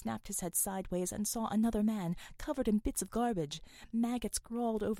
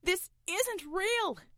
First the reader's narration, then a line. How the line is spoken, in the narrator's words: shouted Roy